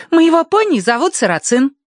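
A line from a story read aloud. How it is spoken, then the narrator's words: Exclaiming. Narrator (Russian): Агнес, воскликнувшей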